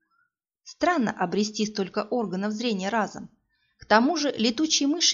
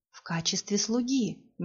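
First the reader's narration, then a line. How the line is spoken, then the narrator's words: Soft, smiling. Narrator (Russian): мягко улыбался Алази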